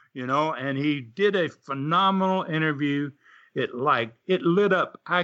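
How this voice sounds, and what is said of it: Usual voice. Nothing is said of it.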